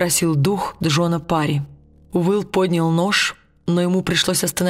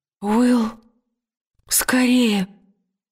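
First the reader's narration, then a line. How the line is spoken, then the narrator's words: Gasping, strained. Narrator (Russian): выдавила Лира, судорожно глотая воздух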